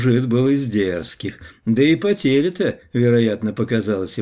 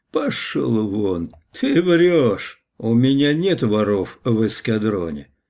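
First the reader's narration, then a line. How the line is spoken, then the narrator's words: Calm. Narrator (Russian): сказал спокойно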